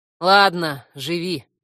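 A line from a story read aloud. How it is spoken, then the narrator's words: Snorting. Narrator (Russian): фыркнула я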